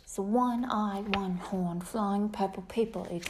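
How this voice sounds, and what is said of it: Put-on British accent. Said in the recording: “I can do like a British accent ... I can do it also in British.”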